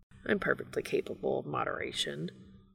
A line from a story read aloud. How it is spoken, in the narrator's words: Castiel mutters unconvincingly